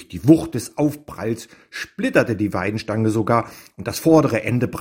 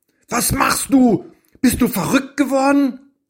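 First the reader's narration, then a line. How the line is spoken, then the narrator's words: Calling out. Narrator (German): rief er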